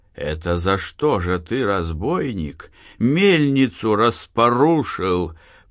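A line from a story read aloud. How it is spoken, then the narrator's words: Broken angry voice. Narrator (Russian): Прерывающимся злобным голосом спрашивал он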